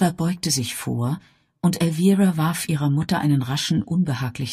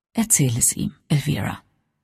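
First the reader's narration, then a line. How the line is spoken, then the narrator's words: Soft. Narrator (German): sagte leise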